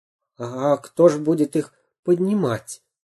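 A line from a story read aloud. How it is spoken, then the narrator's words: Timid. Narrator (Russian): робко спросил Дырка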